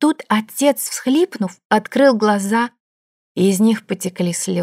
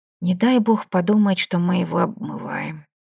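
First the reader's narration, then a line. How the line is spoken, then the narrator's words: Whisper. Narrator (Russian): Дарья прошептала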